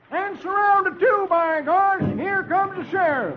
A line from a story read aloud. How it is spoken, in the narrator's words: Doleful shouts